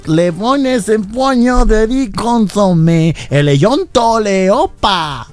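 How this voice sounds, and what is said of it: Exaggerated mock foreign accent. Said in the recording (Spanish): “De ese gran acento”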